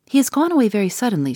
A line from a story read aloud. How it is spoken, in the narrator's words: she said